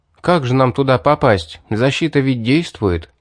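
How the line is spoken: Sad sigh. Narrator (Russian): С огорчением вздохнув, обратился я к магу

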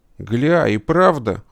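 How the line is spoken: Exclaiming. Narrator (Russian): воскликнул Весло

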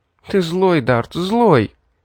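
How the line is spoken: Sobbing exclamation. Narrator (Russian): всхлипывая, воскликнула Ребекка

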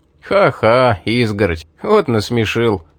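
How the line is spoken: Laughing. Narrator (Russian): засмеялся Рэй

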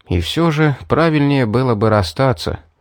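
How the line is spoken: Sighing. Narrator (Russian): вздохнул я, вспомнив о ценности своей жизни и о дальнейших планах, в которые забавы с варгами не входили

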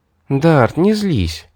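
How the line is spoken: Sweet purring girl. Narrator (Russian): промурлыкала сладко жмурясь девушка

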